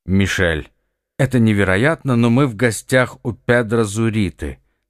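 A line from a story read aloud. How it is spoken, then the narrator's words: Through gritted teeth. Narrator (Russian): сквозь зубы проговорил Ихтиандр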